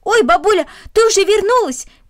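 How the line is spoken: Shout. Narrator (Russian): крикнул он

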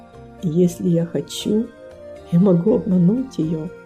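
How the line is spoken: Quiet, as if to himself. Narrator (Russian): Он тихо произнес, как будто про себя

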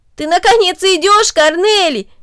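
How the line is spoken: Exclaiming. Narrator (Russian): воскликнул Дино

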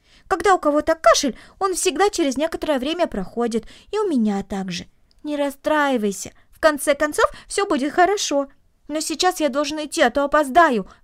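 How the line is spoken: Exclaiming. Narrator (Russian): воскликнул он

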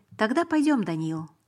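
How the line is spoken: Calm. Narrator (Russian): сказал он спокойно

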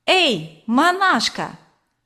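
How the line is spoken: Shouted. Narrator (Russian): крикнул Ленька

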